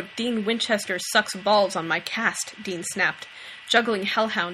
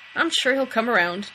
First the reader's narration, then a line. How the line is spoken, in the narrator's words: Dean chuckled